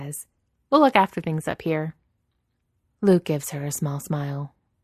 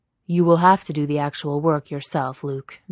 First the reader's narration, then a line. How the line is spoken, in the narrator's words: Vader says, his voice even deeper than the rumble of the engine